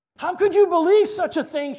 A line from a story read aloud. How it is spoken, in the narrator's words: cried